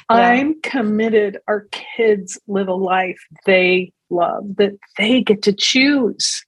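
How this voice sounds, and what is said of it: Emotional, choked-up voice. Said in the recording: “I'm going to get a little emotional.”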